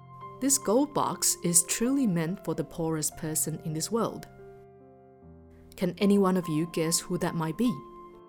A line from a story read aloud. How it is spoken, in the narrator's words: Sujata calmly replied